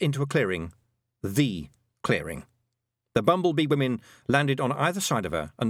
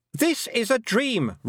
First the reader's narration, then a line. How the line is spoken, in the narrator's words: Roland shouted, but it was louder now because he was catching her up